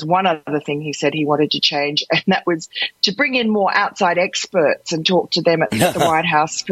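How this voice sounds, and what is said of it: Australian accent. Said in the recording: “that wonderful accent of yours, Australian, obviously”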